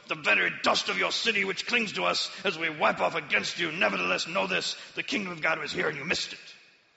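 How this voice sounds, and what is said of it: Put-on French accent. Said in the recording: “The French accent's optional”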